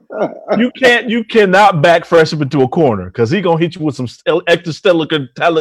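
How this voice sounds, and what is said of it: Imitates another person's voice. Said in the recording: “my fresh impersonation”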